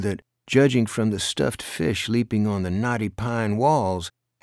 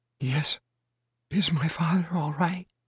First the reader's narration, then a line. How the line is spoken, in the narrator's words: Her voice was little more than a whisper, and husky from her own tears